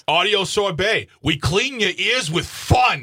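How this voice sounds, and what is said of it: Hostile put-on New York accent. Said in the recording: “Sounds a little hostile ... Accent? ... It's just enough to be funny, not enough to be offensive. ... A guy who moved out of New York like 30 years ago.”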